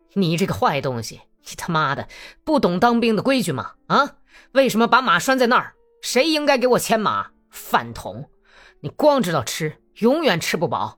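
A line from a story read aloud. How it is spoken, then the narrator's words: Cold, furious scolding. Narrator (Chinese): 格里高里发起火来，怒不可遏，冷冷地骂道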